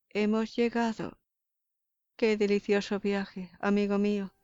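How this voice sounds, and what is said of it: Elegant, cheerful frivolous woman's voice. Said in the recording (Spanish): “Una rápida transición del timbre de la voz ... con su acento elegante de mujer frívola, exclamó alegremente”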